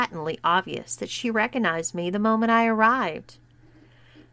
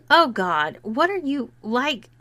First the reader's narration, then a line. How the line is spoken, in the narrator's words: she exclaimed